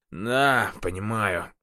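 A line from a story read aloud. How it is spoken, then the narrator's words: Strange sleepy voice. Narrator (Russian): ответил он странным сонным голосом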